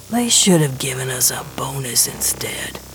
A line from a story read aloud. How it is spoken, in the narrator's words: Gershwin mutters